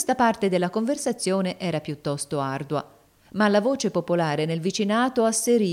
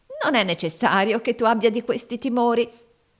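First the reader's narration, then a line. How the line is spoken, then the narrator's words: Wife laughing warmly. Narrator (Italian): notò la moglie ridendo cordialmente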